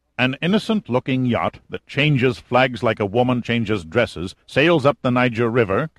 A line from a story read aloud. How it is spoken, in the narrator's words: Kazim snarled coldly